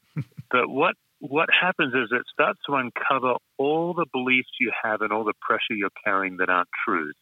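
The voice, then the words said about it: Australian accent. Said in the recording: “You have an Aussie accent.”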